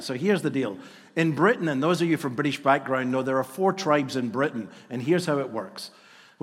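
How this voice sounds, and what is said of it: Scottish accent. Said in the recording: “I'm a Scotsman ... they think I'm a novelty because I have an accent ... they think I'm an Irishman”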